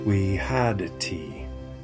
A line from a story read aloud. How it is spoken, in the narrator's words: said wearily